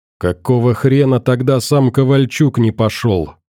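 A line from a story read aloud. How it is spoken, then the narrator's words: Angry growl through teeth. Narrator (Russian): скрипя зубами от злости, рычал Вадим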